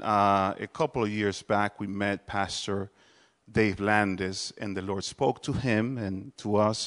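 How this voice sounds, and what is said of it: Speaks with a noticeable accent. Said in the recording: “I do have an accent. Uh, it is not fake. I'm not trying to have an accent. It's just, I have it.”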